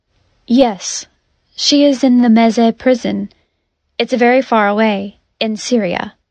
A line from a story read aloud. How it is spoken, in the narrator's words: Rost said